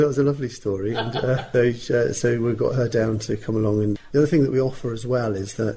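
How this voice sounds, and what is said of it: Usual voice. Nothing is said of it.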